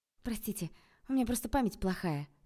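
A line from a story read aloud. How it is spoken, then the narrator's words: Babbling. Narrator (Russian): залепетала я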